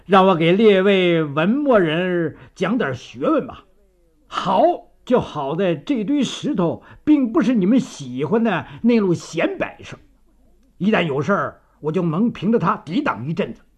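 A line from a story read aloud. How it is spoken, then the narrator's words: Laughing loudly. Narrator (Chinese): 张作霖哈哈大笑地说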